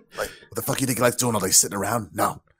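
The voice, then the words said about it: Good impression of Jon Voight. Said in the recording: “you do that impersonation really, really good. ... John Voight”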